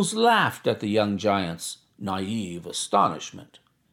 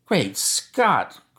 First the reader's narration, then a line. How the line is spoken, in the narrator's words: cried the athlete